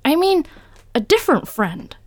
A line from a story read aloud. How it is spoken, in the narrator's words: blurted